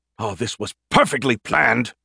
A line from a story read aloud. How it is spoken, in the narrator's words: he groaned